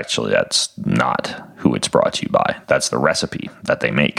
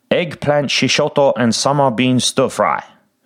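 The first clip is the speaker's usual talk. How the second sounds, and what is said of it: Put-on Asian accent. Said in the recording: “make that accent and read it like that... I love Asian food. I love Asians. I love Asia.”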